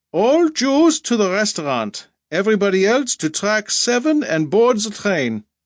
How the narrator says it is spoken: A loudspeaker called out in German

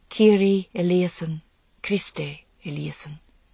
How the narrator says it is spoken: She could hear the priests singing softly

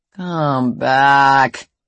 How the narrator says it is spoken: he growls

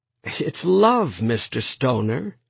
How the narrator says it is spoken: Sloane said cheerfully

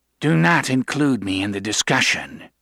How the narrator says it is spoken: he said dryly

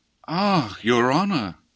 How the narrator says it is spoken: sighed Claggett, mildly shaking his shapely head, as in sad deprecation of such unmerited severity of tone

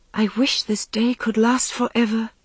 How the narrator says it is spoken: She said, her voice shaking as the thought struck her that this golden time must end

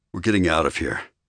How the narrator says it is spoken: he growled

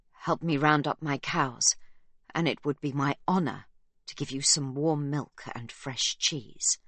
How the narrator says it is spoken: His voice breaks as he utters the words

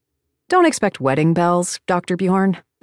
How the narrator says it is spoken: I said

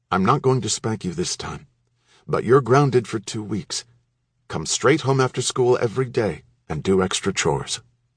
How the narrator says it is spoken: Dad said in a calm tone

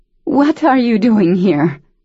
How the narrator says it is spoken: Her voice broke with the force of having to act surprised to see him

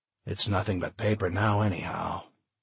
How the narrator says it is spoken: he sighed

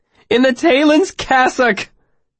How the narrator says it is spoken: Simmons sang

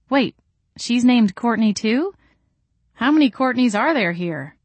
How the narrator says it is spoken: Courtney sighed

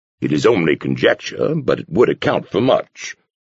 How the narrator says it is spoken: the Thorn said stiffly, unwilling to retreat

